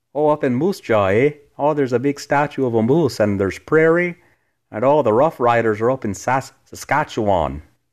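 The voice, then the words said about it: Weak put-on Canadian accent. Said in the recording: “my weak Canada impression, Canadian impression”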